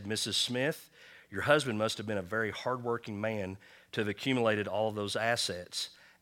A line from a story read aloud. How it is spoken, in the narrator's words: the nurse softly and respectfully said